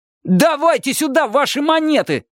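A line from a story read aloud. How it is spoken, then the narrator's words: Yelling. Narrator (Russian): заорал он наконец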